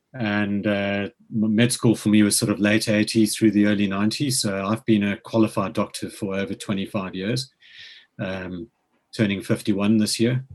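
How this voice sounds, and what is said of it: South African accent. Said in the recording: “as you can probably tell from the accent, I grew up in South Africa.”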